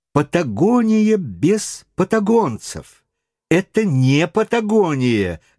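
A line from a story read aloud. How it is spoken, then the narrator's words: Irritated repetition. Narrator (Russian): раздраженно повторял он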